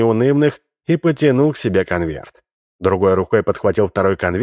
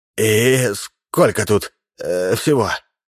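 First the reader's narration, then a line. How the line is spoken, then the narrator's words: Hoarse, fearful, agitated question. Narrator (Russian): спросил хриплым от страха и волнения голосом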